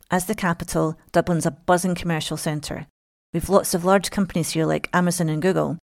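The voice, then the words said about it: Scottish accent. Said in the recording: “As some of you might have guessed from my accent, I was born in Scotland”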